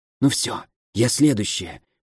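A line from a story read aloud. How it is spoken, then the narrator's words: Hiss. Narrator (Russian): прошипела Мэйси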